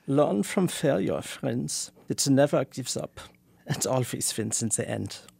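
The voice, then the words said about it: Put-on Germanic accent. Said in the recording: “put on your Adorno accent ... It's much more Germanic.”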